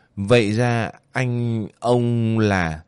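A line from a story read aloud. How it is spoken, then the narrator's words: Hesitant stammering. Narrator (Vietnamese): Rất lâu, Hoàng Thiện Nhân mới ấp úng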